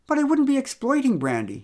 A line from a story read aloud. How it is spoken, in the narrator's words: he exclaimed